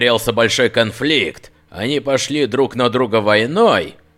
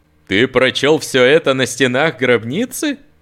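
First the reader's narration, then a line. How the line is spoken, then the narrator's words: Uncertain laugh. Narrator (Russian): Над засмеялся, чтобы скрыть свою неуверенность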